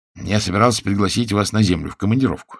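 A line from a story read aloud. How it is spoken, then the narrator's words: Plain. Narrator (Russian): сказал Генрих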